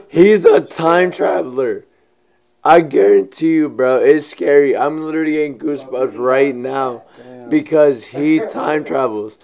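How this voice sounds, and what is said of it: Hoarse, nearly lost voice. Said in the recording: “My voice is gone.”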